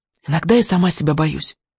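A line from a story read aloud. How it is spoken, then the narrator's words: Confiding whisper. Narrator (Russian): доверительно прошептала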